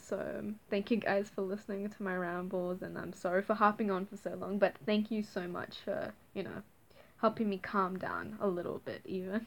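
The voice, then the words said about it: Very fast, nervous speech. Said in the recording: “sorry I'm talking so fast, it's like nervous tick again”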